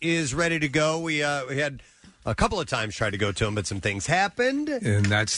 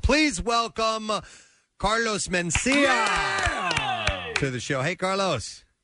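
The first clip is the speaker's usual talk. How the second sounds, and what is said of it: Slight put-on Mexican accent. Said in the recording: “your accent got a little Mexican either ... I tried to give a little bit of the of the dialect, like a newscaster ... you did it perfect. See, you didn't go like full on”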